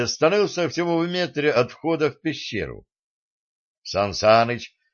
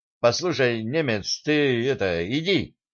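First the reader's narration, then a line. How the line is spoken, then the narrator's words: Timid suggestion. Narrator (Russian): робко предложил Сан Саныч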